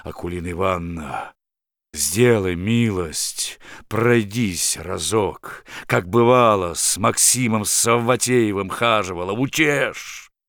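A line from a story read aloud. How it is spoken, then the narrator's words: Pleading in unusually deep voice. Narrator (Russian): стал просить ее необычно густым голосом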